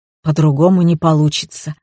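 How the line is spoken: Melancholy sigh. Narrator (Russian): вздохнул Архип с тоской

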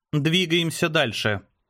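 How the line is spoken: Dry, curt. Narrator (Russian): сухо бросила Ева

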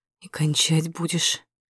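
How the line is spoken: Hoarse voice. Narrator (Russian): хрипло говорит

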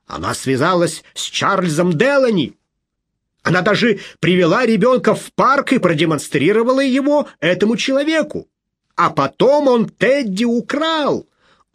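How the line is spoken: Agitated shouting. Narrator (Russian): Он уже по-настоящему кричал и взволнованно

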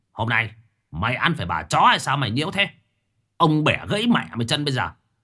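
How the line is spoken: Harsh shout. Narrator (Vietnamese): Cai Phú quát

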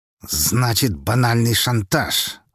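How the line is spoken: Through gritted teeth. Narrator (Russian): сквозь зубы процедил Харитонов

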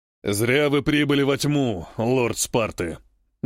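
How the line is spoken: Menacing nomad. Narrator (Russian): грозно произносит второй кочевник

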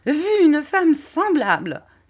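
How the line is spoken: Exclamation. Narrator (French): s'écria Miss Murdstone

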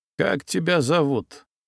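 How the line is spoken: Muffled question. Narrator (Russian): глухо спросил ЦРУшник

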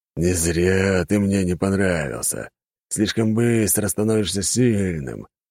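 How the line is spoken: Angry hiss. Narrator (Russian): прошипел от злости бог войны

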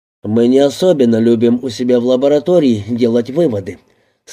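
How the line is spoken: Plain. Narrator (Russian): сказал Гроссман

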